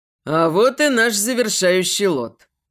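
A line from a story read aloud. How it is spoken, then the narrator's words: Booming male voice. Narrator (Russian): Прогремел голос мужчины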